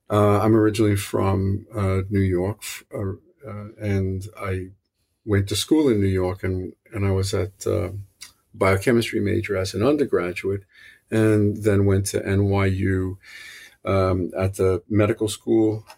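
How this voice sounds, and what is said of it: New York City accent. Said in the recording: “you could probably hear this is a New York City accent. It's not a it's not a Boston accent.”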